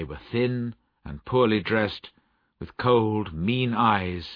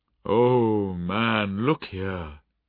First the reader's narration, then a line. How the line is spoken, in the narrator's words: said the Spirit sadly